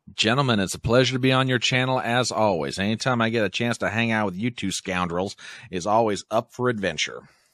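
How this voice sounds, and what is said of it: Crisp Southern US accent. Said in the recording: “Crisp Southern voice. ... we love your accent”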